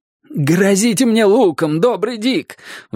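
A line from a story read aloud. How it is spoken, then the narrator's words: Pleading. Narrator (Russian): взмолился он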